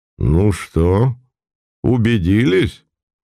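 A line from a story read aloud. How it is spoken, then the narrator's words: Soft laugh, prince. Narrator (Russian): Мягко рассмеялся князь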